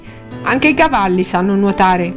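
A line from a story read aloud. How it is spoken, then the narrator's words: Know-it-all little girl's tone. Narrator (Italian): disse Marta con il tono saccente di una bambina di 4 anni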